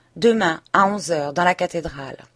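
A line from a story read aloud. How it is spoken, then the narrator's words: Curt tone. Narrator (French): d'un ton bref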